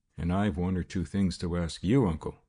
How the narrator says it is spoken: said Frank calmly

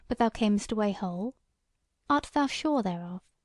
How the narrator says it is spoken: said the carle

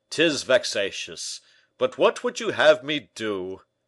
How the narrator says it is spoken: said Porthos with a sigh

